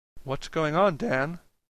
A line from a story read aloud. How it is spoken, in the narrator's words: asked quietly